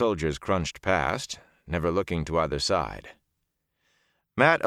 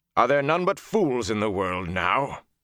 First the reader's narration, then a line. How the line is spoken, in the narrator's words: the deep voice said harshly